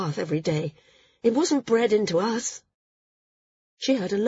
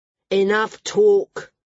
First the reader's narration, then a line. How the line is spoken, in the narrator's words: someone growled